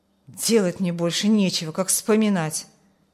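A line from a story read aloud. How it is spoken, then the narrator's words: Grumbled. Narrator (Russian): буркнул Петр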